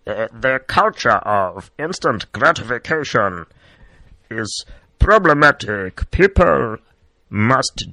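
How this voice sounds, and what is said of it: Imitates another person's voice. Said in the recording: “I'm going to say this in my Madiba voice, and this is not my Yoda voice ... This is not his more higher pitch voice. This is Madiba voice.”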